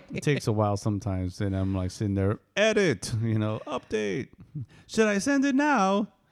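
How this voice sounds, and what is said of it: Speaks with a noticeable accent. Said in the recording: “in my fucking accent”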